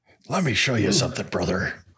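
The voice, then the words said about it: Weak Hulk Hogan impression. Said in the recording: “I think it was supposed to be Hulk Hogan, but it didn't really sound like it.”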